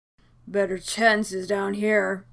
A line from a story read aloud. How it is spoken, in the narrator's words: Steve explained, more than a tad slurred